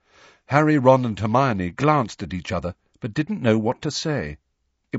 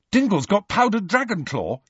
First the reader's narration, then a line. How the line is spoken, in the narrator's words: said Ron eagerly